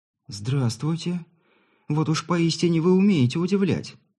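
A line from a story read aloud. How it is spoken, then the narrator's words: Girl, confused and slightly agitated. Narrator (Russian): Растерянно и отчего-то даже немного взволнованно произнесла девушка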